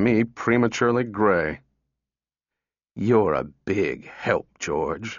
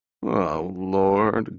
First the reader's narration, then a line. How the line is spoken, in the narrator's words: groaned the lesser half